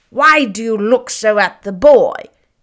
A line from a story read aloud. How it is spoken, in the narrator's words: he exclaimed irritably